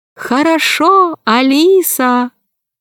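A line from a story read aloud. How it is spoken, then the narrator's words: Thin high voice. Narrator (Russian): дельфины один сказал тонким голосом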